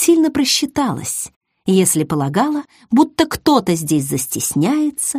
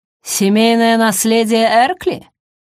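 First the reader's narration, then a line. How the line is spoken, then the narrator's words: Skeptical snort. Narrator (Russian): хмыкнула она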